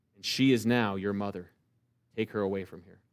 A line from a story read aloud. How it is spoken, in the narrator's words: Jesus murmurs